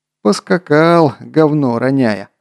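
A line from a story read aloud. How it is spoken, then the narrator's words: Chuckling navigator. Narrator (Russian): хохотнул штурман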